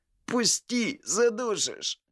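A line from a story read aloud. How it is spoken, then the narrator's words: Choked rasp. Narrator (Russian): прохрипел Виталик, посинев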